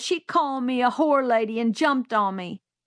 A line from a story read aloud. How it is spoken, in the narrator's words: he bawled